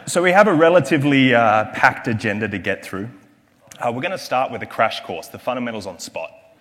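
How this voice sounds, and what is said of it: Australian accent. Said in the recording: “my accent is from Australia”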